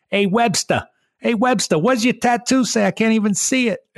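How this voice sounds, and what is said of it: Imitated Boston accent. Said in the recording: “Your Boston accent... Was that pretty good?... That was pretty good.”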